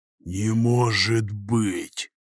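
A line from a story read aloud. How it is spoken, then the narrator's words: Whispered. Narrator (Russian): прошептал Захар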